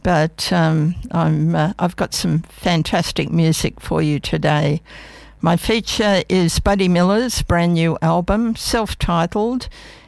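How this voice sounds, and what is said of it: Rusty, slightly hoarse voice. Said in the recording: “I came down with that dreadful influenza A, and it's really got its hooks in. My voice is still a little bit rusty”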